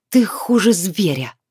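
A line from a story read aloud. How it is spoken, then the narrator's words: Hissed through teeth. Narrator (Russian): сквозь зубы процедила Лиана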